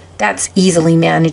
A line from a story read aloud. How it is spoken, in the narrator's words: said Santa Claus